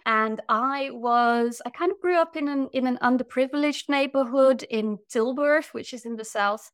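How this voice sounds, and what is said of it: English with Dutch-British accent. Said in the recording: “I grew up in the Netherlands, but with an English or a British mother, as you can hear from my accent probably”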